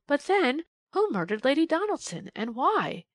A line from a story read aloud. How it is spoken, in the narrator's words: gasped Polly